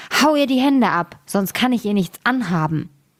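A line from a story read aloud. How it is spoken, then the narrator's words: Angry. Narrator (German): sprach wütend zu dem Müller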